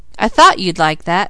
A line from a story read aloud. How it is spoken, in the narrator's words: laughed the editor